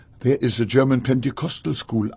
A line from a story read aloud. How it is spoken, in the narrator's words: I said